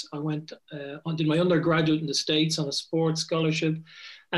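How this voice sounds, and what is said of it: Irish Dublin accent. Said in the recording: “you can probably untangle it from my accent. ... But I'm Irish and I come from Dublin, born and reared.”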